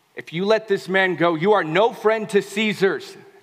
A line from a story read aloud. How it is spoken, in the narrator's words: they shouted